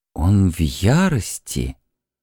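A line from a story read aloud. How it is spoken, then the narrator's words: Quiet shaman. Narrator (Russian): тихо выговорил наконец шаман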